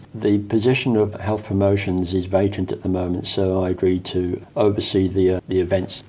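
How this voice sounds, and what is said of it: British accent. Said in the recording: “originally from the UK, as you can obviously hear from the accent.”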